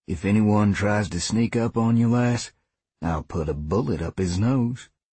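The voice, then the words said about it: Calm Southern drawl. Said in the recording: “crackled the reply, laced with a calm southern drawl.”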